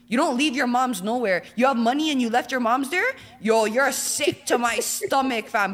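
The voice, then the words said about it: Toronto accent. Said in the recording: “The Toronto accent gotta be the worst.”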